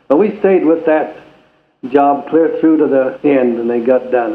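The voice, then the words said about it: Regional accent. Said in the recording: “the great accent that you have”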